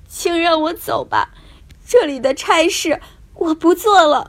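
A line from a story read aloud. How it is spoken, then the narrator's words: Crying. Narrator (Chinese): 他哭着说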